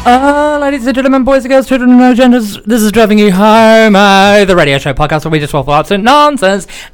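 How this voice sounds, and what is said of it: Raised, oddly loud announcer voice. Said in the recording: “I'm raising my voice in a weird way”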